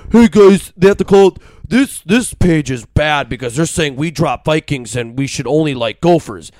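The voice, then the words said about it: Dumb caveman-like voice. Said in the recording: “I'm talking like a caveman”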